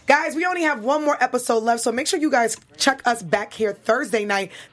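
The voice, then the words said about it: Hoarse, worn-out voice. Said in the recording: “I'm so excited I'm losing my voice, because we've been talking nonstop”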